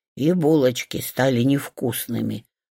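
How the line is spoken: Sigh, pig. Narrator (Russian): вздохнула свинья

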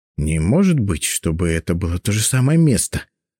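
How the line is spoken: Muttered. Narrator (Russian): пробормотала Анна

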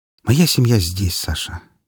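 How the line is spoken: Quiet, sincere reply. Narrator (Russian): негромко ответила сестра, и я почувствовал искренность в ее словах

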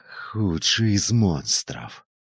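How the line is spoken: Hissing. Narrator (Russian): прошипел похититель

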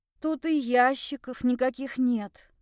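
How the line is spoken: Breathless exhale. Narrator (Russian): выдохнула

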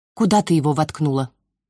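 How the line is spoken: Cold question. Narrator (Russian): Холодно спросила Изи

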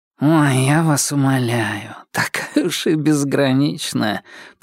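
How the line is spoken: Nasal drawl. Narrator (Russian): прогнусавил кто-то

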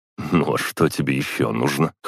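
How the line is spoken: Grunt. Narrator (Russian): хмыкнул я

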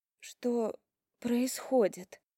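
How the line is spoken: Barely audible whisper. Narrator (Russian): еле слышно прошептала я

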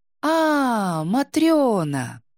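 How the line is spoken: Drawn out. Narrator (Russian): протянула Настасья

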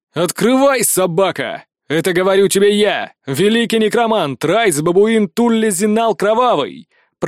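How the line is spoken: Shouting. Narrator (Russian): прокричал

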